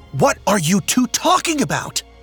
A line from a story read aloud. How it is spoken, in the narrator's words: Horus shouted to get their attention